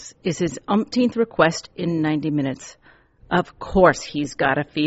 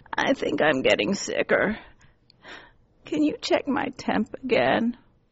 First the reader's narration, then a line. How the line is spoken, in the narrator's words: rasps